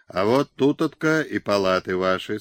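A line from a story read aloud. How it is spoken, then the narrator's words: Plain. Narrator (Russian): сказал Киселев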